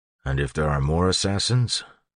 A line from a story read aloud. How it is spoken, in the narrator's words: He asked quietly